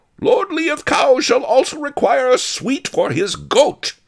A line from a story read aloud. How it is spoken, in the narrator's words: bellowed One-Eyed Wong